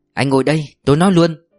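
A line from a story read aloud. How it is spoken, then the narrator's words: Stern voice. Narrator (Vietnamese): Bà Dung nghiêm giọng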